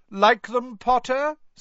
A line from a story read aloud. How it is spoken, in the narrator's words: said Malfoy loudly